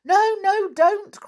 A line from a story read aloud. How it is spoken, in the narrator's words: cried all the pixies at once